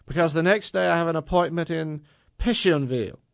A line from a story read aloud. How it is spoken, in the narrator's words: Zora blurted, hastily adding